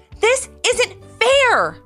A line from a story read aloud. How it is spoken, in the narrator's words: Levi exclaimed as he ran through the front door